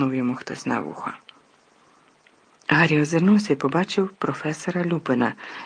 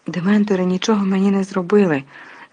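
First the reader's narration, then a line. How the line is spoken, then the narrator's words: Excited exclamation. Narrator (Ukrainian): збуджено вигукнув Гаррі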